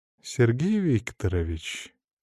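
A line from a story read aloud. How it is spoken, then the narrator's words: Silky, ingratiating voice. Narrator (Russian): вкрадчивым голосом проговорила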